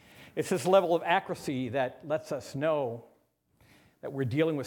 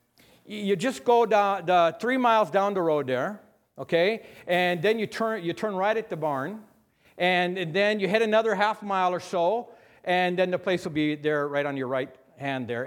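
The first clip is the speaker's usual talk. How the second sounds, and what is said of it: Put-on North Dakota accent. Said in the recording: “So that's North Dakota. North Dakota for you. Even give you the accent.”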